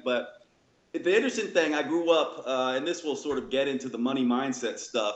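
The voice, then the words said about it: Mixed Northern-Southern drawl accent. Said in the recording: “the little Southern drawl... a little bit of Northern Southern and a little bit of, you know, sort of thug when you hear my accent”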